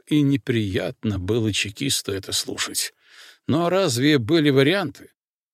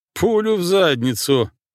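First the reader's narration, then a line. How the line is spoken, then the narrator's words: Laughing. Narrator (Russian): рассмеялся Алекс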